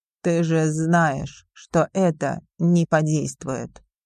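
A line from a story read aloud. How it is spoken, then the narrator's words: Weary chuckle. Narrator (Russian): устало усмехнулся Александр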